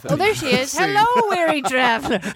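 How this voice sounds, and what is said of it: Old woman character voice. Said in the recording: “I did my old woman voice”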